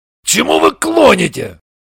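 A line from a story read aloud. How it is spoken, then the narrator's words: Angry question. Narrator (Russian): ответил Шульгин и сердито спросил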